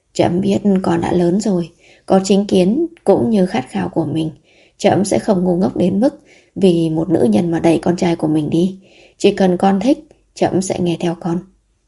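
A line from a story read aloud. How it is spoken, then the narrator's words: Gentle. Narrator (Vietnamese): Vẻ mặt Thần Chiếu dịu dàng lại nói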